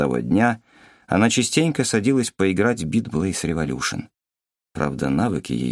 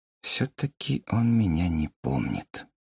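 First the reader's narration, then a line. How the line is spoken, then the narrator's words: Whisper. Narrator (Russian): она прошептала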